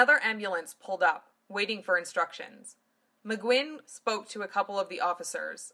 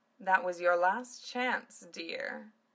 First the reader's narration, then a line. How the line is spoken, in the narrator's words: Zelis said lazily